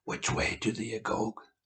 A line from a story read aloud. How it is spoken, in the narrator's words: In a dry rasp